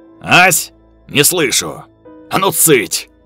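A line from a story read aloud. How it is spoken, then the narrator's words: Barking roar. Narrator (Russian): Рявкнул он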